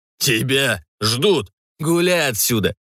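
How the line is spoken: Laughing loudly. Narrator (Russian): Захохотал уволень

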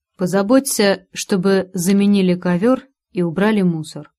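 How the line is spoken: Calm. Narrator (Russian): произнес миллиардер спокойным тоном

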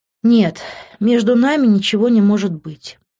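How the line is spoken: Sighing. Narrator (Russian): вздохнула я

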